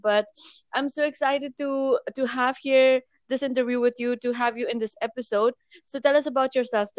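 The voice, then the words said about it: Unwell, low-energy voice. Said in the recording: “my voice is so bad, so I'm not in my regular energetic self”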